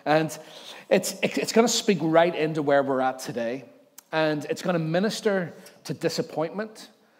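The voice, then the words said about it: Voice strained by sore throat. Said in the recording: “I've got a sore throat this morning”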